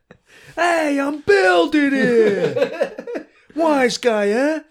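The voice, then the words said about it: Put-on Brooklyn accent. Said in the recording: “Did they have the Brooklyn accent that we know in 1870?”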